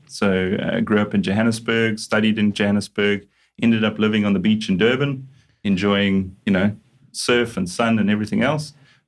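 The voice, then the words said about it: South African accent. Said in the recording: “you can hear from the strange accent that I'm a South African originally”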